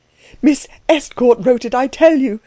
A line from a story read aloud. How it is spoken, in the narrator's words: cried Klutz